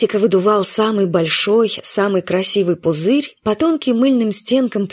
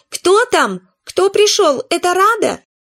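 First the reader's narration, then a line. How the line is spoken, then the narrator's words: Indignant wail. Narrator (Russian): Митика возмущенно завопил, потому что пузырь лопнул, так и не сорвавшись с соломинки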